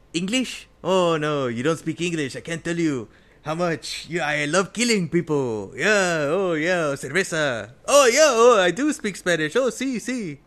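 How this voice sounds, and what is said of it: Thick Spanish accent, Antonio Banderas impression. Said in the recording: “Antonio Banderas ... It's the thickest accent in the world.”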